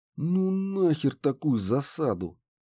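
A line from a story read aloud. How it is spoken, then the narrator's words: Muttered through teeth. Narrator (Russian): процедил я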